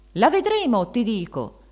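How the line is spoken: Shouting. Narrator (Italian): gridava donna Ferdinanda

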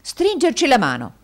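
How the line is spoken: Jovial exclamation. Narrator (Italian): esclamò il gioviale indigeno degli Yorkshire

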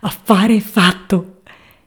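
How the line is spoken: Exclaiming. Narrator (Italian): esclamò lui

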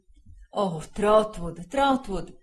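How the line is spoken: Distressed exclamation. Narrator (Italian): esclamò il signor Wickfield, torcendosi le mani

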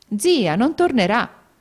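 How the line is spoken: Exclaiming. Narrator (Italian): esclamò alla fine Lucrezia

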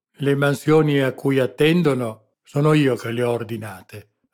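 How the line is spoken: Sour, resentful retort. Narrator (Italian): ribatté lo spagnolo in tono acido, come risentendosi di qualche supposta punta satirica

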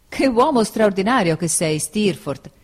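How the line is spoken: Exclaiming. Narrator (Italian): esclamai

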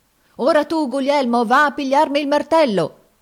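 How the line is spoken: Shouted. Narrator (Italian): gridava

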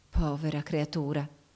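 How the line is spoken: Soft sighing undertone. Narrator (Italian): soggiunse sottovoce mandando un sospiro

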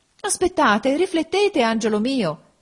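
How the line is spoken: Mother exclaiming. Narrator (Italian): esclamò la madre

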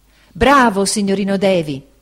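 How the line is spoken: Ecstatic exclamation. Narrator (Italian): esclamò Cam, estasiato

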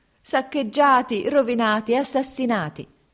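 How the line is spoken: Woman shouting. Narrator (Italian): gridò la donna

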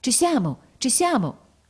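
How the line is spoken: Midwife exclaiming. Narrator (Italian): la levatrice esclamava

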